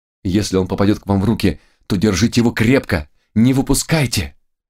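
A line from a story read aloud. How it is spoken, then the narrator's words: Furious exclamation. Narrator (Russian): воскликнула Гретхен, глаза которой загорелись яростью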